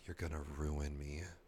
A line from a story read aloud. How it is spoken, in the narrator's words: His voice was hoarse when he whispered